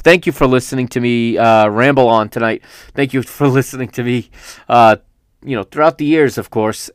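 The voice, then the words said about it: Strained, failing voice. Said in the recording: “That's all I've got a voice for today... Hopefully my voice is able to do that.”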